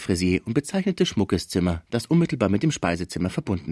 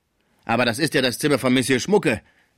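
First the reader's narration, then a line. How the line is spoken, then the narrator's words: Called out. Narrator (German): rief die Sauvage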